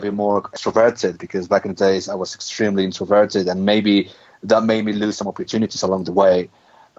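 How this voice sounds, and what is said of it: Mexican accent. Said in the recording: “he's certainly from Mexico, and I could pick up on the accent there”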